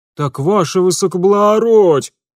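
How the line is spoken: Howling gendarme. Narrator (Russian): взвыл железнодорожный жандарм

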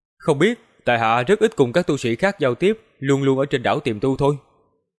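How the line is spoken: Smiling. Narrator (Vietnamese): Bạch Giao Di mỉm cười hỏi

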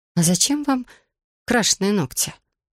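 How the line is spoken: Trembling question. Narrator (Russian): дрогнувшим голосом спросила царевна-лягушка

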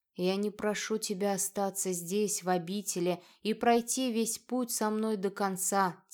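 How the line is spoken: Quiet. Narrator (Russian): тихо продолжал Адер

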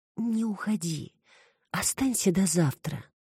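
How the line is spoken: Sleepy whisper. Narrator (Russian): прошептала Саша на границе между явью и дремой

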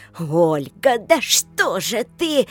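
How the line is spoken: Old woman's angry, frightened roar. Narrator (Russian): взревела то ли гневно, то ли испуганно пожилая

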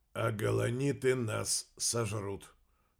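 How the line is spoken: Muffled. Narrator (Russian): глухо закончил Аристотель

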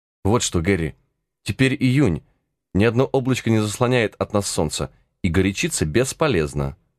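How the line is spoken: Calm reply. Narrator (Russian): отвечал Зверобой спокойным тоном

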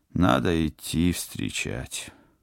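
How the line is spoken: Glum admission. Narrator (Russian): уныло признался пилот

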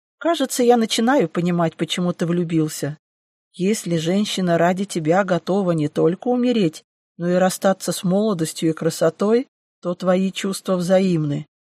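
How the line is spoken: Just finished laughing. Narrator (Russian): отсмеявшись, обратился к Фениксу гость

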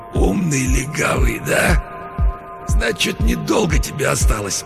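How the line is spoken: Wheezing, injured man. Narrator (Russian): Человек с разбитым лицом прохрипел

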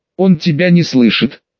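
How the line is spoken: Giggling. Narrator (Russian): Хихикающая Исида

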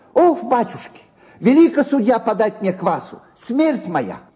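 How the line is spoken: Angry shrill tenor. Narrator (Russian): сердито тараща на него глаза, заговорил визгливым тенором

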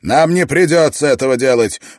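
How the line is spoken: Excited exclamation. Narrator (Russian): возбужденно воскликнул Давенпорт

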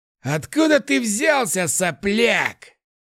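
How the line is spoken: Furious growl. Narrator (Russian): Яростно прорычал волк

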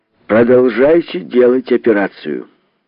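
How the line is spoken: Loud answer. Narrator (Russian): громко ответил Кокосов и сказал

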